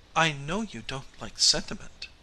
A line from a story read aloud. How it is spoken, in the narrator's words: she said timidly